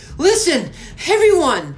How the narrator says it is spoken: Alfie shouted over the sudden uproar

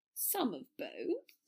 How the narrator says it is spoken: Draco said shakily

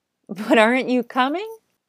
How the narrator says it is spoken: laughed the cub

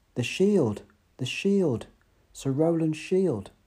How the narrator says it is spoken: one of the knights cried out

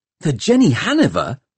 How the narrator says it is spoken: gasped Tom

